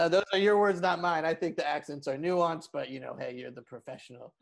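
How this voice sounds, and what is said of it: Usual voice. Nothing is said of it.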